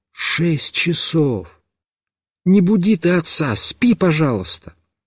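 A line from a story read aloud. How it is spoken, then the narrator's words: Mother's whisper. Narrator (Russian): мама прошептала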